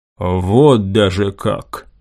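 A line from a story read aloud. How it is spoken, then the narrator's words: Thoughtful drawl. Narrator (Russian): задумчиво протянул Санчес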